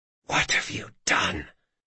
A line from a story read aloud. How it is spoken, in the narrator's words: he whispered